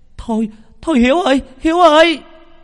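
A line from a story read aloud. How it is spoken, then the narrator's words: Woman shouting. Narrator (Vietnamese): một bà hét lên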